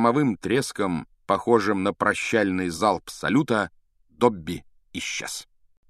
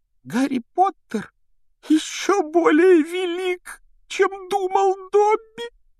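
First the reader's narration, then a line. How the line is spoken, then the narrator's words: Sobbing exclamation. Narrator (Russian): воскликнул он с рыданием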